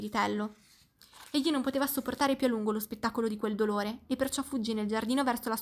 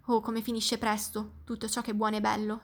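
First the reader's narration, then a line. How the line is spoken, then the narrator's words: Little spirit sighing. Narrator (Italian): sospirò lo spiritello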